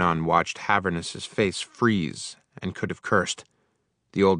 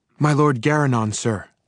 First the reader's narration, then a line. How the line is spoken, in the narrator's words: panted the boy